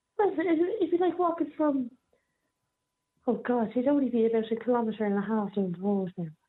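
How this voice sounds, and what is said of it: Rural Irish accent. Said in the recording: “I'm trying to detect where your accent might be from, by the way. I don't know if you're from Dublin or where you're from. But it does sound like are you living in rural Ireland?”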